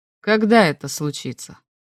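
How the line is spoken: Sudden quiet question. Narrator (Russian): Вдруг тихо спросил он

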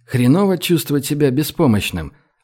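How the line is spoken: Gentle inquiry. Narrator (Russian): ласково осведомился Гош

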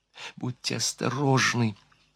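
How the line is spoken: Whisper. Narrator (Russian): шепнула она еще

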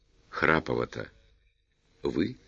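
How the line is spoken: Whisper in ear. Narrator (Russian): шепнул в ухо Тимофей Григорьевич

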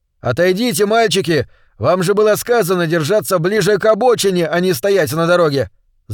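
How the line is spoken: Shouting. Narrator (Russian): закричал кто-то

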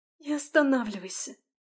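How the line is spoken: Sobbing plea. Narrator (Russian): Всхлипнув, попросила Алиса

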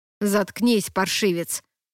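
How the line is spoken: Grumbling. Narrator (Russian): проворчал его брат

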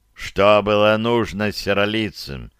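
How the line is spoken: Elder's muffled question. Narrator (Russian): глухо спросил старейшина

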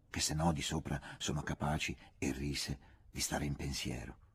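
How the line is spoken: Whisper. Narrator (Italian): sussurrò

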